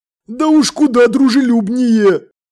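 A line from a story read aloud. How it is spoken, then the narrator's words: Exclaiming. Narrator (Russian): воскликнул Колон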